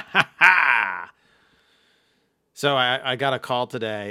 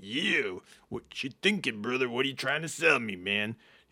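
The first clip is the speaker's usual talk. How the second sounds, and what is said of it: Imitates another person's voice. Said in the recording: “I was Macho Man ... I'm doing my Macho Man as the best”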